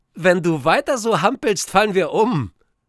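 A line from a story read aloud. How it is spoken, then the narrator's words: Laughing call. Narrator (German): Lachend ruft sie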